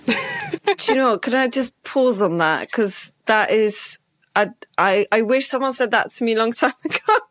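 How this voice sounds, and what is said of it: Mixed Polish-tinged foreign accent. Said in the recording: “my accent is not maybe obvious Polish, but there's, as I've been told, I'm quoting other people, something different or wrong with my accent ... I'm Polish and my accent is just confused, right? So it has all sorts of different accents”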